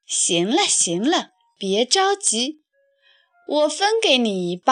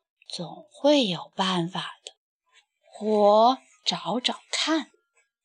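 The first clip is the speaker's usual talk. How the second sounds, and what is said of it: Listless, weak muttering under breath. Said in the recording (Chinese): “无精打采地朝垃圾箱里张望着，接着他又有气无力地小声嘀咕着”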